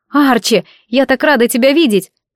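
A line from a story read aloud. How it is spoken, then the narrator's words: Warm, glad exclamation. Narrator (Russian): воскликнула, действительно почувствовав теплоту в груди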